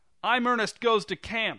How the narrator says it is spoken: shouted

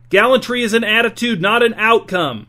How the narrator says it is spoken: B's shout

